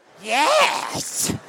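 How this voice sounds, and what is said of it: Gollum character voice impression. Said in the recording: “We're going to switch to Gollum. Gollum. Smeagol. ... he nailed it”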